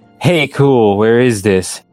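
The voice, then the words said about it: Mock emo voice. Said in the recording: “He asked in an emo voice.”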